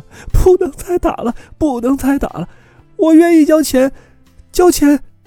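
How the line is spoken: Crying out. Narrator (Chinese): 他哭喊

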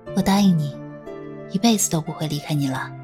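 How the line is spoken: Soft reply. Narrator (Chinese): 穗禾只是轻声应道

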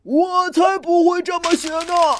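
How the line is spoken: Lion's roar. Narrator (Chinese): 狮子大吼

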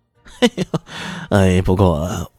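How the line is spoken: Laughing. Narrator (Chinese): 他这么说的的时候，笑着

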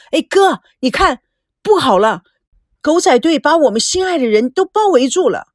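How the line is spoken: Loud cry. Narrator (Chinese): 赵美娇大声的呼叫

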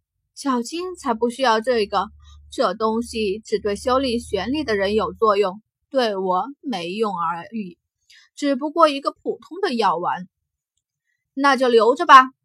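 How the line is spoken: Long sigh. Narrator (Chinese): 小金悠悠叹息

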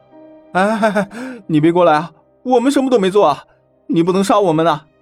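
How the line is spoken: Trembling, frightened shouting. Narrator (Chinese): 剩下两个男人已经完全失去了斗志，颤颤巍巍地喊道

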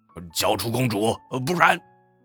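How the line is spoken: Dragon shouting from outside. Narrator (Chinese): 窗外的恶龙喊道

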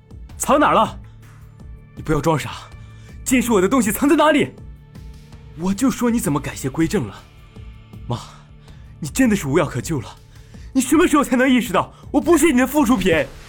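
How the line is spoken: Furious low growl. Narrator (Chinese): 许一帆暴怒地向那边低吼道

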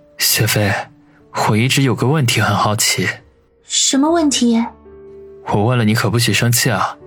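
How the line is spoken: Asking quietly. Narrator (Chinese): 忍不住低声的问道

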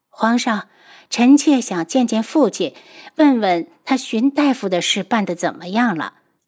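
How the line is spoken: Sighing, worried. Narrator (Chinese): 皇后林婉如去看皇上，见他身子还是没有起色，叹息着道

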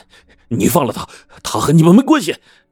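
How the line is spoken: Shouting while running. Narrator (Chinese): 何大伟从远处跑来，边跑边喊

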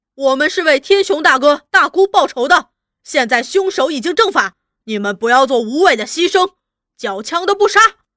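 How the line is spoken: Shouting along the way. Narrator (Chinese): 徐果一行人沿途大喊

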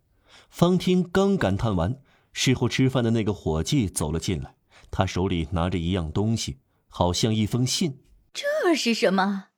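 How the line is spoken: Plain question. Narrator (Chinese): 法乌利特问

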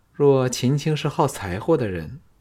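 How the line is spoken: Laughing, coy sigh. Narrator (Chinese): 秦青笑得……娇叹说

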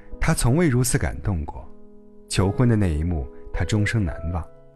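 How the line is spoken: Wistful sigh. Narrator (Chinese): 每次提起表弟求婚的往事，弟媳妇儿都会感叹道

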